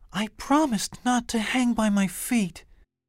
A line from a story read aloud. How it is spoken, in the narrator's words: Stella Luna sighed